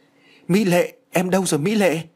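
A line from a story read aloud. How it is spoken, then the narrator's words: Shocked cry. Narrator (Vietnamese): anh chàng đã bàng hoàng kêu lên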